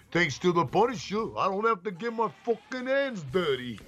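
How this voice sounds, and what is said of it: Exaggerated New York mobster accent. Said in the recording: “the fucking whole New York fucking mobster fucking accent going”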